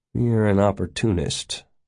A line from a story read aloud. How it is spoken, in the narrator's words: murmured